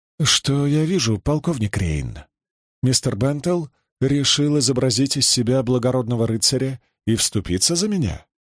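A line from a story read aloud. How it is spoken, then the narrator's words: Tender, gentle question. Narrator (Russian): нежным голосом спросила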